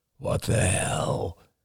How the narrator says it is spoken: murmured

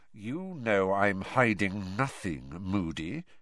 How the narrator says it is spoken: he said in a soft and dangerous voice

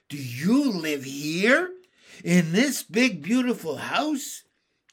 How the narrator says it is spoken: Henry cried in surprise

